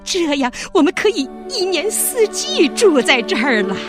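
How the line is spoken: Shouting. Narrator (Chinese): 他们叫喊着

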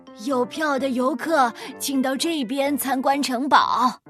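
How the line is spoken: Loud raised voice. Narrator (Chinese): 他尽可能地提高声音喊道

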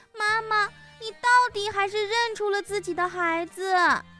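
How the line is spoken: Laughing. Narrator (Chinese): 小白兔笑了

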